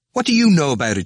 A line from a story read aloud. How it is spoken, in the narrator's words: shouted Stephen